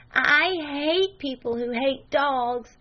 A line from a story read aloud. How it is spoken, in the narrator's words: she cried out abruptly